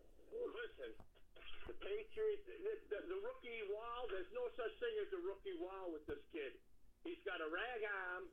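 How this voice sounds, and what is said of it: Boston New England accent. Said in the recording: “he's got the Boston, New England accent ... people are fucking with me when they start talking like this guy, but it is legitimate”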